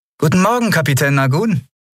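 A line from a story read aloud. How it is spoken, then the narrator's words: Cheerful greeting. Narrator (German): begrüßte sie fröhlich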